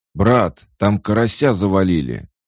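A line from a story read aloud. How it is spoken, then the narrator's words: Shouted by a bandit. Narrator (Russian): закричал один из вошедших бандитов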